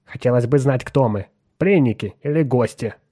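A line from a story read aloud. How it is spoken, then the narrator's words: Grumbling. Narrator (Russian): проворчал Отто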